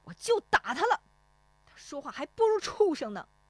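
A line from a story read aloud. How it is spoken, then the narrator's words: Angry. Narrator (Chinese): 石丽华怒声说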